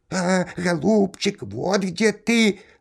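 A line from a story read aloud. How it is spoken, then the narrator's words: Squeaky bird voice. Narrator (Russian): запищал птичий нос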